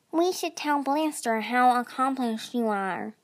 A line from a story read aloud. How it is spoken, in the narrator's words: Ripple said in his oozy voice